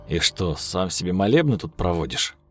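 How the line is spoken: Snorting. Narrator (Russian): Хмыкнул Михаил

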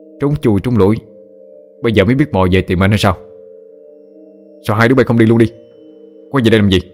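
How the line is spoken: Angry. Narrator (Vietnamese): giọng nói có vẻ tức giận

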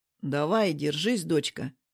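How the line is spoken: Gentle father. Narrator (Russian): мягко говорит папа

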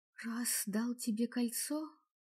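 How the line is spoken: Whispering. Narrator (Russian): прошептала я

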